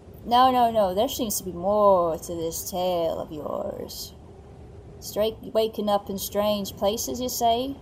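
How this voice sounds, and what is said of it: Put-on accent from a video game. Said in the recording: “loving the accent ... Oh, thank you. Thank you, Red Dead Redemption 2.”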